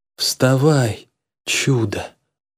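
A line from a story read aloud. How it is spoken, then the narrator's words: Grumble. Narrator (Russian): буркнул я парню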